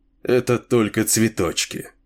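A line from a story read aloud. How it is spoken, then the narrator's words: Gloomy. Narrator (Russian): мрачно сказал Чейн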